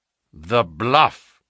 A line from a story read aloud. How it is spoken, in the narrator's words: said Holmes sternly